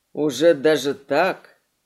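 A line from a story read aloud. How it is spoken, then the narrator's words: Woman's hoarse laugh. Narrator (Russian): Женщина рассмеялась хрипловатым смехом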